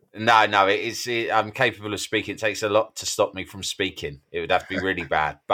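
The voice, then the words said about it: Sore-throated, slightly strained voice. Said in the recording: “I've got a bit of a sore throat ... Yeah, I hear it.”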